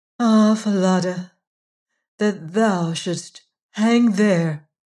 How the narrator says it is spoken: the princess sighed

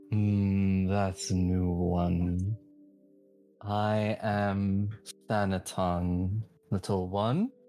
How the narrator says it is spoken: something that sounds like a gentle rumble, could possibly be a laugh, and just, you hear the voice go

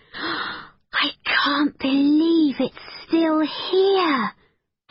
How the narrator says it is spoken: breathed Becky

